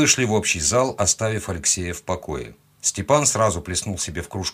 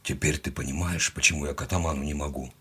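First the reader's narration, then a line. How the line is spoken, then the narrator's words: Quiet question. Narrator (Russian): тихо спросил он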